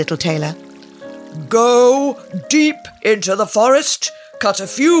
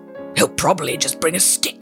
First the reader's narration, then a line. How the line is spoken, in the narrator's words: growled the giant